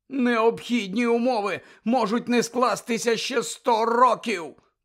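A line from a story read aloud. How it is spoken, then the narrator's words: Groan. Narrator (Ukrainian): простогнав Дерг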